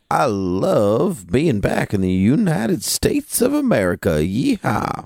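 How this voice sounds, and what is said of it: Exaggerated put-on American accent. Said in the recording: “my American accent just comes out in full force”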